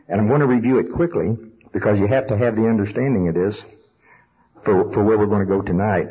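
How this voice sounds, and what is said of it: Oklahoma accent. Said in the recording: “my Oklahoma accent”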